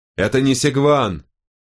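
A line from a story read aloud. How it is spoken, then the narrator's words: Shouting at full volume. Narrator (Russian): во всю мощь, закричал Волкодав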